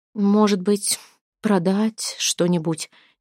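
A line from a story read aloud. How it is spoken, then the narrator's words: Hesitant voice. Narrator (Russian): неуверенно подала голос Тюра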